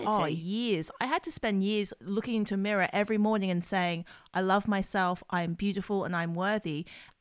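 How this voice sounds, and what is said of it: Australian accent. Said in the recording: “this is an Australian accent that we are listening to”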